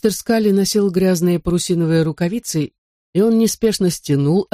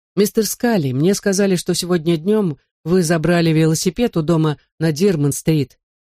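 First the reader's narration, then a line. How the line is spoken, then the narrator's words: Plain. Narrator (Russian): сказал старьевщику отец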